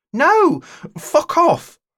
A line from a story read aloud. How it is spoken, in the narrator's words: I cried